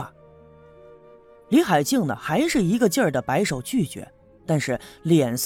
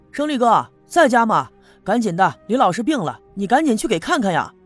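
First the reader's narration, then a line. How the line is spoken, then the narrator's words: Shouting. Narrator (Chinese): 我喊了两声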